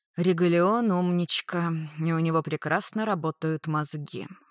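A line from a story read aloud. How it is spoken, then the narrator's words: Sighing. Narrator (Russian): вздохнул Рикошет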